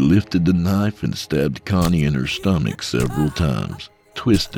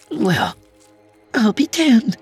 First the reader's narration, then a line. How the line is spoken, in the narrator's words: chirped